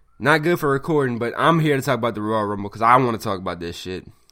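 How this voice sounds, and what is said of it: Raspy, hoarse voice. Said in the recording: “I sound kind of raspy. I'm under the weather right now. I got a sore throat.”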